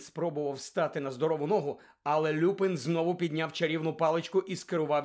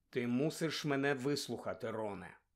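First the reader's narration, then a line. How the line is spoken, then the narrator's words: Calm. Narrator (Ukrainian): спокійно промовив Люпин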